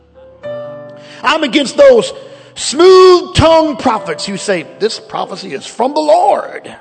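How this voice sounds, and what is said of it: Mock preacher voice. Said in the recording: “preacher voice”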